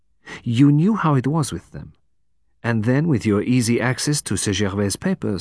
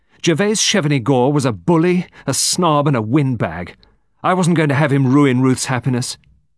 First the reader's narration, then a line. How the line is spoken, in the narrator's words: Miss Lingard said fiercely